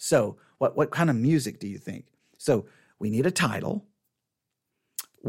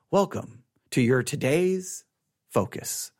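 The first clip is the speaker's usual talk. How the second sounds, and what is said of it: Mock public radio announcer voice. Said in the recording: “I don't know if my voice does the NPR thing... I don't know if I have the NPR voice.”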